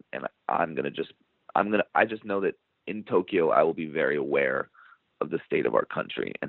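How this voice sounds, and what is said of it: Strained, fading voice. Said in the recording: “I'm losing my voice, so pardon me”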